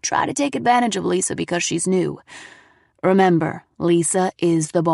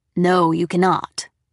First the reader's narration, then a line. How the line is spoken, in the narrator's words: Alice said firmly